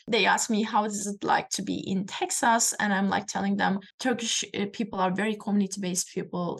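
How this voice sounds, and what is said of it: Turkish accent in English. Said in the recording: “this is my accent ... I'm from Turkey”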